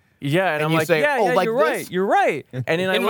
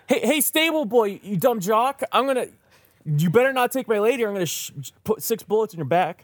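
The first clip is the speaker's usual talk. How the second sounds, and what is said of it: Screaming angrily. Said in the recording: “And I'm screaming,”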